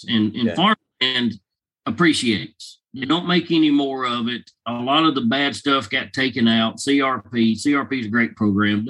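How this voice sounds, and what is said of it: Southern US redneck accent. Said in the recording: “I've got a redneck accent, Louisiana, Arkansas, Mississippi”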